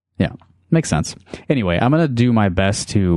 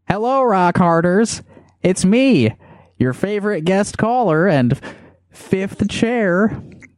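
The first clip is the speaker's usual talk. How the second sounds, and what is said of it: Enthusiastic impression of Rob Sand. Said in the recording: “Do an impression of our friend Rob ... I'm trying to put the enthusiasm in my voice, too.”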